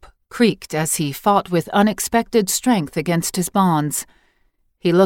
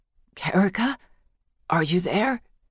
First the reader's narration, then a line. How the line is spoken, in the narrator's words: Bellick murmured, as in a daze